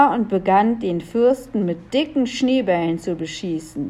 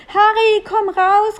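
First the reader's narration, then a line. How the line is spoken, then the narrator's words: Called out. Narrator (German): rief Melissa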